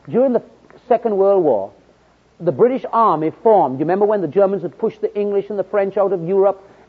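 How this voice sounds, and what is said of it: Jamaican British accent. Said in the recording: “I'm a Britisher. You wonder where my accent is from ... I was born in Jamaica, British Empire.”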